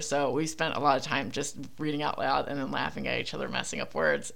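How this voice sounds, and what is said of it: Philadelphia accent. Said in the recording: “my Philly accent fucks everything up”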